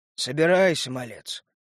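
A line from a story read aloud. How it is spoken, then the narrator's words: Sad. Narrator (Russian): грустно сказал он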